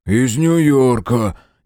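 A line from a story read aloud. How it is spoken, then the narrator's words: Reluctant grumble. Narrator (Russian): неохотно буркнул Толи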